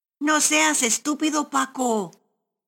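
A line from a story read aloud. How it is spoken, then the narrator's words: Shouted by a thief. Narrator (Spanish): gritó uno de los ladrones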